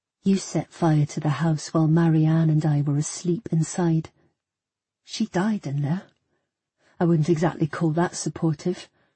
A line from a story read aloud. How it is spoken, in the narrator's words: I said, trying my best to keep my voice calm, not entirely succeeding